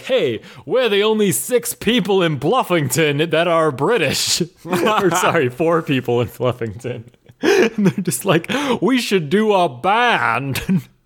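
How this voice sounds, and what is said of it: Put-on British accent. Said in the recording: “That's my British accent. Pretty good, huh?”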